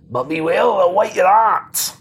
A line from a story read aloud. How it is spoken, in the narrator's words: he turns and shouts